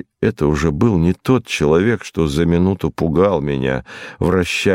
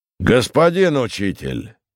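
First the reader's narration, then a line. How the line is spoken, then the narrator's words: Shout. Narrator (Russian): крикнул он затем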